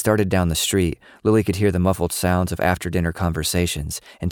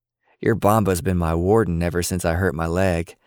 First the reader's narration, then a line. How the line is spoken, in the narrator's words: Papaw finally laughed